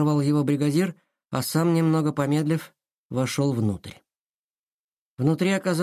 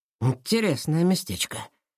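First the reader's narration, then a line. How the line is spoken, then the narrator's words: Muttered. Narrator (Russian): пробормотал он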